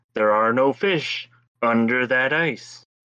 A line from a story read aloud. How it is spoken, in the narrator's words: he hears again the voice booming, saying